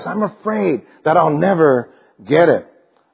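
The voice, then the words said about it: Fearful, anxious delivery. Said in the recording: “You can hear the fear in his voice.”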